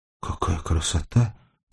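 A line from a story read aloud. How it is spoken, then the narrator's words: Whispered. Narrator (Russian): прошептала Сашка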